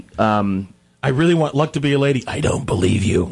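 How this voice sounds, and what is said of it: Imitated voice after throat surgery. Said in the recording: “that's my Sanford Meisner impersonation ... That was after the operation on his throat.”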